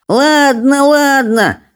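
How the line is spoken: Grumbling. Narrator (Russian): проворчал Беззубик

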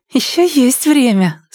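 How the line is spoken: Bashful giggle over phone. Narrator (Russian): стыдливо хихикнула трубка

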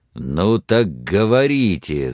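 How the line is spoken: Growled. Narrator (Russian): зарычал Лонг на Сексон

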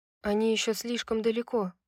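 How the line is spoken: Quiet. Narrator (Russian): тихо сказала Фьюри

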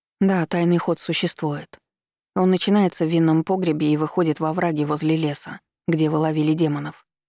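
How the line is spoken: Plain. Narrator (Russian): сказала ему

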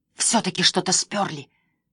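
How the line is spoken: Hissed. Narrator (Russian): зашипела Эмили

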